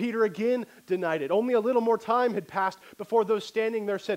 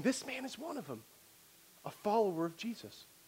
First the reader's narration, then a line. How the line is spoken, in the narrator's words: she began to whisper to those standing beside her, saying